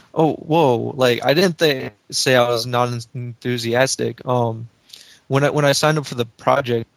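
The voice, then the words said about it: Flat, monotone unenthusiastic voice. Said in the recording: “you don't sound enthusiastic... You kind of monotone... you don't want to be monotone”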